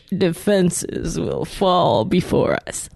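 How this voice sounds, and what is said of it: Darth Vader voice with vocal fry. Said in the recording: “That was Vader? ... Vader-esque ... It's Vader with like a vocal fry. ... Vader mixed with the boss from Office Space”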